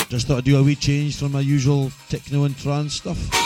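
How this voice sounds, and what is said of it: Hoarse, congested voice from a cold. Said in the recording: “my voice is totally fucked because I've got the cold”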